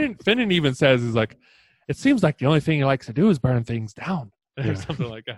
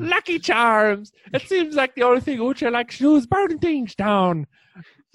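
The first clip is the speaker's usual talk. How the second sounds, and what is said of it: Put-on Irish accent. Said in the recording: “I cannot do an Irish accent today. Here, let me try again. ... That's perfect. ... Sounds just like Finnan, right?”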